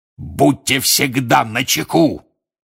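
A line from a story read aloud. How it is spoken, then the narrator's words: Roaring. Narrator (Russian): взревел он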